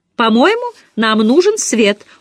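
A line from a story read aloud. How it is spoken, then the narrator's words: Cheerful. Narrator (Russian): бодро заявила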